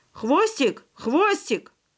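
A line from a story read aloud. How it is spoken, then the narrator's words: Sudden involuntary shout. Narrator (Russian): вдруг он неожиданно для самого себя крикнул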